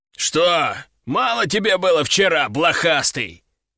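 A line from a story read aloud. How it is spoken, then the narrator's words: Deep bass voice. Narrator (Russian): пробасил он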